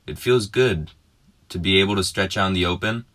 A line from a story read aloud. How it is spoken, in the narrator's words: the boy man yelled